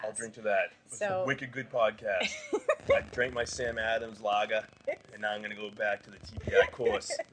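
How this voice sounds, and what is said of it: Strong Boston accent. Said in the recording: “That Boston accent is crazy.”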